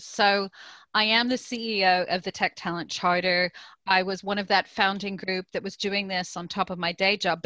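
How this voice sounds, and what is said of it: Mixed American and British accent. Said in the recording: “My accent sounds strange because I was originally born in the US, but I've lived in the UK for 30 years.”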